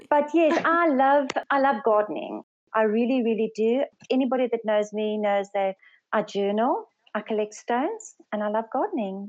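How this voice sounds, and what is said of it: South African Afrikaans accent. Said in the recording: “I'm from South Africa ... I'm actually Afrikaans speaking, but English is my second language ... I love your accent.”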